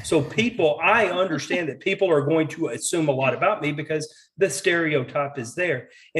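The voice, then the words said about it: Southern American accent. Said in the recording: “I am a straight white man with a Southern accent.”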